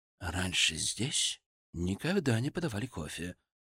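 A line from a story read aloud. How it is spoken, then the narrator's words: Frightened whisper. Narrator (Russian): испуганным шепотом сказал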